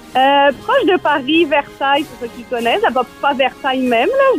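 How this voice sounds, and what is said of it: French accent. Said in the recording (French): “à part mon accent, je pense que j'ai perdu un petit peu de France en moi”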